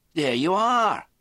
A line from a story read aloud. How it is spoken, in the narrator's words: Mac said triumphantly